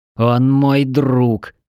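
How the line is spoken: Through clenched teeth. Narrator (Russian): сквозь зубы проговорил

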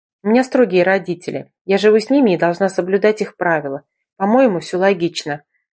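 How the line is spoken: Calm. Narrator (Russian): ответила она спокойно

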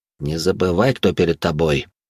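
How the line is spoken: Whispered in her ear. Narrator (Russian): прошептал он ей на ухо

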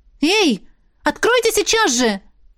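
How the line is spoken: Shouted. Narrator (Russian): выкрикнула

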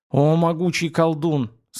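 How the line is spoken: Pained sudden pleading. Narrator (Russian): скривившись, словно от нестерпимой боли, неожиданно взмолился воин

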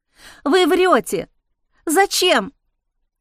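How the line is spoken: Sharp exclamation. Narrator (Russian): воскликнула она резким голосом

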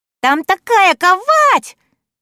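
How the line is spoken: Excited overlapping shouts. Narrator (Russian): Взволнованно кричат они, перебивая друг друга и спеша поделиться

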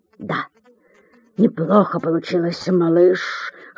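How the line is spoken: Hoarse, tired. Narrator (Russian): хриплым утомленным голосом отвечает Артур

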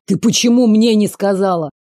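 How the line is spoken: Angry hiss. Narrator (Russian): Зло прошипел на нее Кент

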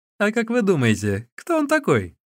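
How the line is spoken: Laughing question. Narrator (Russian): смеясь, спросил Ли Цзюнь

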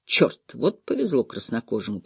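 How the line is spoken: Muttering. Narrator (Russian): пробормотал Лоусон

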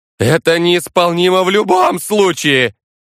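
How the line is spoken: Nervous voice-cracking shout. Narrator (Russian): Уже не сдерживая эмоции, прокричал Эрих Стаут, от нервов пустив в своем голосе петуха

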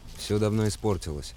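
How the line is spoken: Plain. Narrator (Russian): сказал я

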